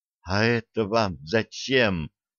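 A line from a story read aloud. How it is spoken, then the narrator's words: Barely audible hopeful whisper. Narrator (Russian): еле слышно прошептал он, и в голосе его звучала такая надежда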